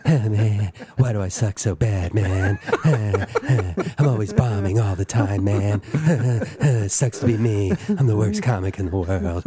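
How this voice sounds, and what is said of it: Crying impression of another person's voice. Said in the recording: “my Todd Barry crying impression”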